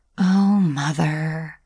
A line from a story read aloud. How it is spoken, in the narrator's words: sighed Franny, trying not to show how much her words had hurt her